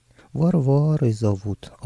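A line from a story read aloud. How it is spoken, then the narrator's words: Sighing. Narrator (Russian): девушка и вздохнула, добавила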